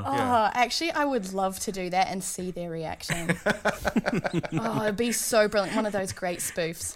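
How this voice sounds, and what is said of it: New Zealand accent. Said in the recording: “With our accent, we can get away with a lot... swearing in a New Zealand accent”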